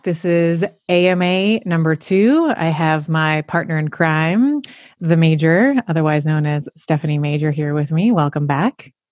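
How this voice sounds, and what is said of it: Deeper, velvety voice from illness. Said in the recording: “my voice gets deeper and deeper and deeper ... my voice is a bit more sultry and a bit more you know velvety ... I can feel my throat starting to get a little itchy”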